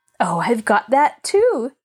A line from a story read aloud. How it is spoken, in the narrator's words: chuckled Pollyanna